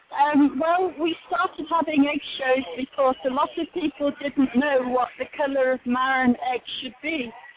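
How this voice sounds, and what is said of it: Charming accent. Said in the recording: “a really charming accent”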